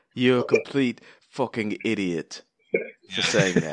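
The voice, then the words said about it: Poor Gordon Ramsay impression. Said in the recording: “I would go like Gordon Ramsay on you guys. ... I have a horrible accent too.”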